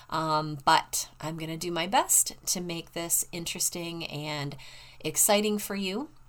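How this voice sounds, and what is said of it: Stuffy, congested voice. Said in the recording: “my voice is a little bit stuffy because I'm just getting over COVID”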